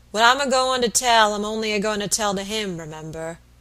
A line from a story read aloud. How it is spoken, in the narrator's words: growled Mr